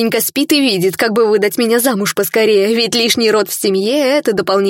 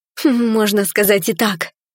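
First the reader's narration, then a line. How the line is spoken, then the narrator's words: Timid smiling reply. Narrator (Russian): робко улыбнулась в ответ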